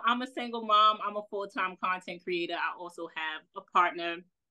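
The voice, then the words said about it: New York accent. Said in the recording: “clearly I've been told my accent. New York, New York, baby, New York.”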